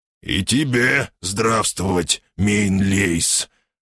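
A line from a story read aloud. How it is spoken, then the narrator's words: Growling. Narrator (Russian): рыкнул я в ответ на приветствие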